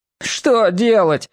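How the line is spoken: Sudden plaintive shout. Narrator (Russian): вдруг закричал чернявый жалобным голосом

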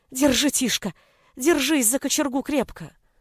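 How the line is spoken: Cold, trembling whisper. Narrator (Russian): Брат, посиневшими от холода губами, прошептал

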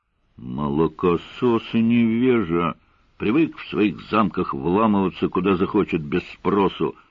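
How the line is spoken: Grumbling. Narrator (Russian): Раздалось следом знакомое ворчание

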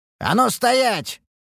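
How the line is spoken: Barked command. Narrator (Russian): рявкнул я

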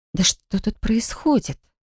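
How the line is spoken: Breathed out. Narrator (Russian): выдохнула я

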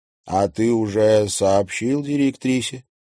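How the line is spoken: Plain. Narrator (Russian): спросил Луиза Соловьева

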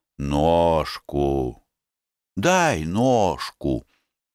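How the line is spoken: Cheerful and tender request. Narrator (Russian): весело и нежно просил

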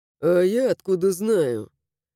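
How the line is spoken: Displeased grumble. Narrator (Russian): Буркнул недовольно мой красавчик

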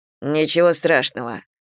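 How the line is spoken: Grumbling. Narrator (Russian): проворчал он

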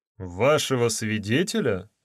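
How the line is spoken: Surprised question. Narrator (Russian): удивленным тоном спросил судья

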